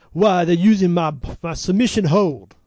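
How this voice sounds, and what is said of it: Put-on French accent. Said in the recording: “That's my best Rick Martel French accent.”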